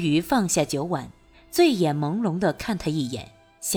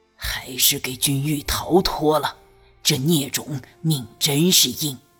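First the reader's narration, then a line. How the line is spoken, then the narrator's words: Low bitter voice. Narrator (Chinese): 朱丞相又低声恨恨道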